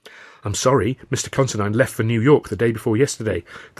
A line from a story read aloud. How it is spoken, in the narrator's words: the receptionist said